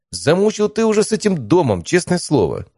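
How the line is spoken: Exasperated exclamation. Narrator (Russian): воскликнул я в сердцах

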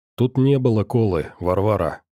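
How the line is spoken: Calm. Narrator (Russian): спокойно сказал дядя Миша

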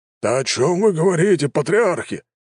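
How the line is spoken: Exclaimed. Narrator (Russian): воскликнул Горсиан

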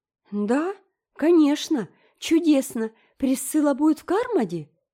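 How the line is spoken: Exclaiming. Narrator (Russian): воскликнула Энн

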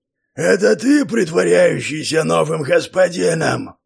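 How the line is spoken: Roaring pack leader. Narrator (Russian): проревел вожак

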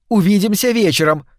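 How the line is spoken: Calling out after. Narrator (Russian): крикнула ему вслед Ивлин

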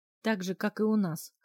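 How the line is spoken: Young woman snorting. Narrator (Russian): хмыкнула девушка

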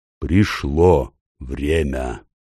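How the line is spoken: Growled. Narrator (Russian): прорычал

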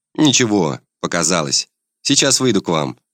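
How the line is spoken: Calm reply. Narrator (Russian): спокойно отвечаю

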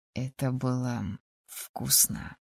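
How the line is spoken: Quiet. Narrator (Russian): тихо произнес

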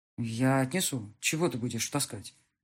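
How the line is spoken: Muttering. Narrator (Russian): забормотал он

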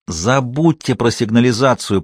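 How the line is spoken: Hissed. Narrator (Russian): прошипел Кучеренков

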